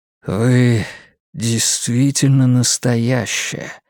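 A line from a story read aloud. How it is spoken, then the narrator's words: Soft breathy voice. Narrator (Russian): мягко выдохнул он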